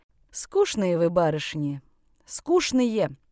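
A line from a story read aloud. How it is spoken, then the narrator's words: Heavy sigh. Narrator (Russian): тяжко вздохнул Семен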